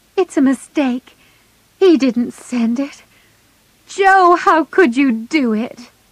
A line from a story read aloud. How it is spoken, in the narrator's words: Meg hid her face in her hands and cried